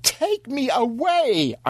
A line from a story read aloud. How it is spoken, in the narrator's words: I wailed